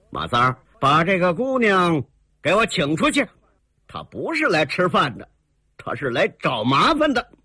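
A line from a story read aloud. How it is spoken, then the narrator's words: Cold snort. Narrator (Chinese): 刘二拐子 冷冷地哼了几声 说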